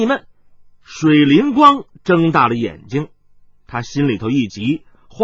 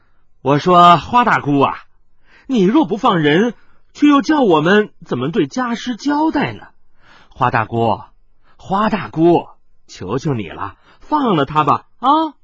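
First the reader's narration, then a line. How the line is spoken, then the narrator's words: Laughing witch. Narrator (Chinese): 另一个魔女却笑着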